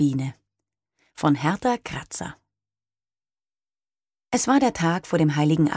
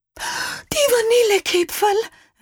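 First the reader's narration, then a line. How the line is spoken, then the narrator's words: Called out. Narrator (German): rief Frau Moser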